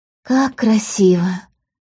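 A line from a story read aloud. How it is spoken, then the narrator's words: Breathless. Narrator (Russian): выдохнула Полина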